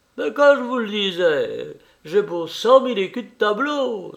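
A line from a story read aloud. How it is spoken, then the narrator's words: Exclaiming. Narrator (French): s'écria Vervel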